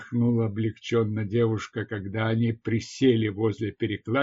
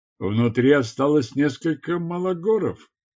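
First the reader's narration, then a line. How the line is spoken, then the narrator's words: Shout from cave entrance. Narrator (Russian): крикнул Тарс Таркас из входа в одну из пещер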